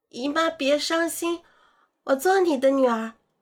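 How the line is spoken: Loud, resolute. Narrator (Chinese): 我把这种冲动化为勇气 大声道

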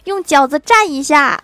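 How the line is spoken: Loud. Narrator (Chinese): 欢喜大声说道

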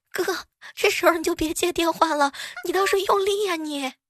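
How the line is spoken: Anxious, panting shout. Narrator (Chinese): 公司那个妹子在旁边也用着急喘的这个气息啊，大喊

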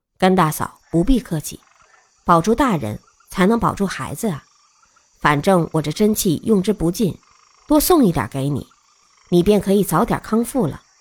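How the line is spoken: Soft speech. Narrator (Chinese): 鬼谷子 轻声道

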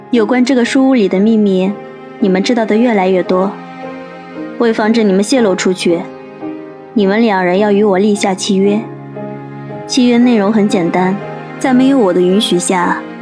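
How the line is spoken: Calm, detached. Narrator (Chinese): 宋子阳淡淡的开口

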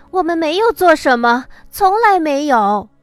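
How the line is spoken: Silent inner shout. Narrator (Chinese): 我在心底大声呐喊

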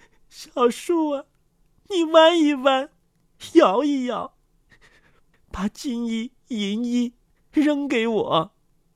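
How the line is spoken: Grief-stricken wailing. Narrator (Chinese): 悲痛的哭喊道

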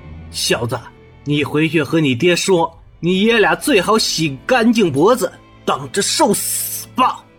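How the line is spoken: Through gritted teeth, pained. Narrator (Chinese): 沈世宜强忍着伤痛，咬牙道

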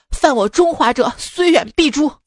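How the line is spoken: Angry. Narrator (Chinese): 老板怒道

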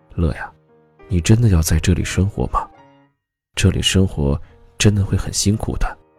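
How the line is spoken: Soft melancholy murmur. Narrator (Chinese): 母亲一脸惆怅，嘴里一直在轻声说着

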